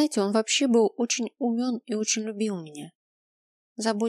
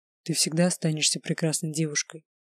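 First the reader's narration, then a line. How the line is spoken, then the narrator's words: Quiet, curt. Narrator (Russian): тихо бросил Грайнер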